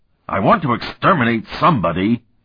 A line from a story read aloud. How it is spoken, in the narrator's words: he roared